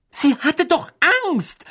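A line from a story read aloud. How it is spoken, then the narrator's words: Angry outburst. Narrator (German): stieß Hermine zornig hervor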